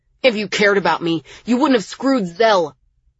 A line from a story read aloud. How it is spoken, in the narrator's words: Miles yelled